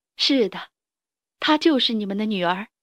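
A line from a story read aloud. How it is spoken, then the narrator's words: Smiling. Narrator (Chinese): 斯库拉微笑着，说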